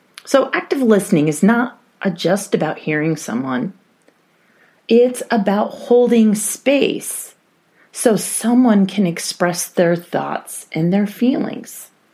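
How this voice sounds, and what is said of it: Congested voice with a cold. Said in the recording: “I have a little bit of a cold. So if you hear some sniffles or my voice sounds a little strange”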